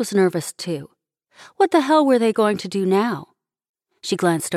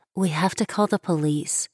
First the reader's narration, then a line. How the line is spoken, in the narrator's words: Shelley said under her breath